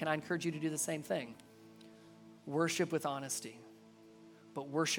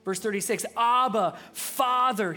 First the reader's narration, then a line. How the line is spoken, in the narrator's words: he cried out